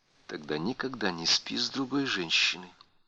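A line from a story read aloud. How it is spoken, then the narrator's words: Soft. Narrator (Russian): мягко заявила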